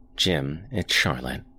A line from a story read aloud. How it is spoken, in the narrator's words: said calmly